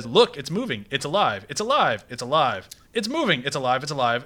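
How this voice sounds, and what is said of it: Flat monotone line reading. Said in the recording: “I'm gonna read it as monotone as possible so I can properly ruin this line”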